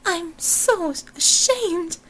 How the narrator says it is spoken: Miss Robinson sobbed, her voice female again

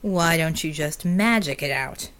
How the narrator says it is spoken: the Djinni sneered

